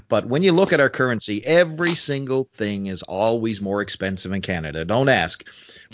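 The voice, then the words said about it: East Coast Canadian accent. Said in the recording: “I'm Canadian for folks who weren't picking up on the accent. I'm from the East Coast of Canada.”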